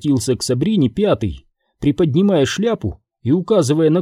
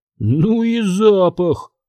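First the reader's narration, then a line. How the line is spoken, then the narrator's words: Grumbling. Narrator (Russian): проворчал четвертый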